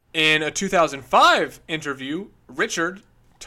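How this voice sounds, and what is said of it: Usual voice. Nothing is said of it.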